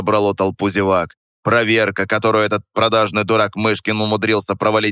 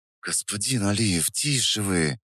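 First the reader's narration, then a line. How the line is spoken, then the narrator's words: Hissing. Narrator (Russian): зашипел в ответ тот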